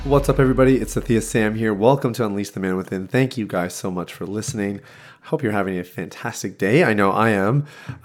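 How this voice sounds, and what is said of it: Slightly sick, under-the-weather voice. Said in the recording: “I'm a little bit under the weather. I don't know if you can hear it in my voice ... Might be a cough or two in here”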